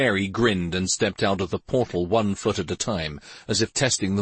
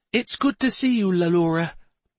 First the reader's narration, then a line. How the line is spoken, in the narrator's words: the fairy said warmly